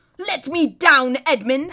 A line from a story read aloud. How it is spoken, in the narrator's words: howled Rabadash